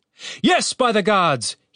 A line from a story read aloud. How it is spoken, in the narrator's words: He shouted